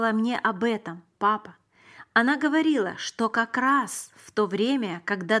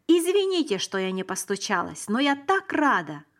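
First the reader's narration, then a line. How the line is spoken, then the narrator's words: Exclaimed. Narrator (Russian): воскликнула она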